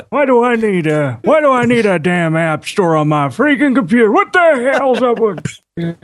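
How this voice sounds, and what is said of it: Grumpy old man voice. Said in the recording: “That's right, grumpy old man. ... thank you for using that accent particularly there”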